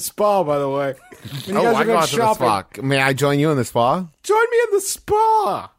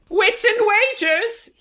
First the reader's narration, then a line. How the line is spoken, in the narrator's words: he yells, apropos of nothing